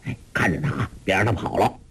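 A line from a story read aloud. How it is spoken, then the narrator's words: Startled, low voice. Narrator (Chinese): 吃了一惊，低声对众衙役说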